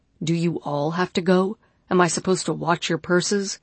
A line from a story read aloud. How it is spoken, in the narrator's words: Teresa snorted again, but in disgust